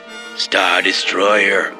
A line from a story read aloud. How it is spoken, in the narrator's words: Cockmame rasped